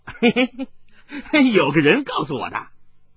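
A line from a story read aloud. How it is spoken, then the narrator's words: Child laughing. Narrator (Chinese): 跛足童子眨着眼睛笑着说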